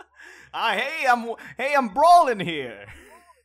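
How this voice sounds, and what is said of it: Put-on New York movie accent. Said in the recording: “Does he talk with that accent? ... Nobody talks like that. ... except in like the movies.”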